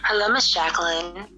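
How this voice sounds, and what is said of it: Sexy Marilyn Monroe phone voice. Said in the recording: “You got your sexy's phone voice on ... I'm trying to do my Mr. President. You know, the Marilyn Monroe.”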